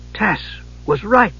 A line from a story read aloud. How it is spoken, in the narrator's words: Palin gasped